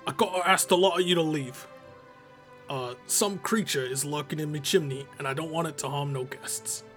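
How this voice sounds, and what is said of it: Deliberately bad put-on accent. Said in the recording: “I apologize for that god god awful accent I tried doing”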